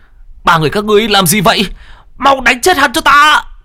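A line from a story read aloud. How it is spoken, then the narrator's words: Yelling. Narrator (Vietnamese): Phùng Lãng gào lên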